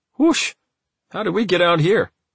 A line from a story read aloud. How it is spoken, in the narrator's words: When he realized where he was, he exclaimed